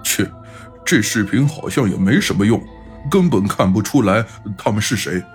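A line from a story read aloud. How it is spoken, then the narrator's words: Muttering. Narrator (Chinese): 老飞在一旁嘀咕道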